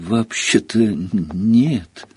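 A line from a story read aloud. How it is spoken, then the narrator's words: Timid, forced out. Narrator (Russian): робко выдавил из себя Гарри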